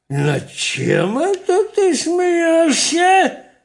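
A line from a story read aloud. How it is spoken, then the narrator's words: Terrifying voice. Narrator (Russian): Да таким страшным голосом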